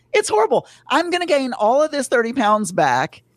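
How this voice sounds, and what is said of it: Southern American accent. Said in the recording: “I'm sounding Southern right now. I can hear my Southern accent.”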